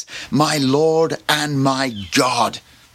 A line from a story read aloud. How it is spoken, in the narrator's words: Thomas exclaims